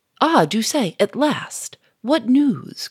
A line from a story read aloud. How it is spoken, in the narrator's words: cried Gouchard